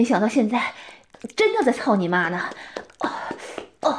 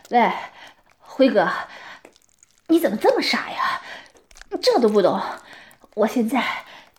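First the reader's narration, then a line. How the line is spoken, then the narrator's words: Agitated breathless. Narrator (Chinese): 阿俊被刺激的，气喘地说道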